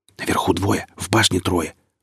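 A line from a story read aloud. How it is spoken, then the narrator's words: Whispered close by. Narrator (Russian): прошептал примостившийся рядом Лукьянов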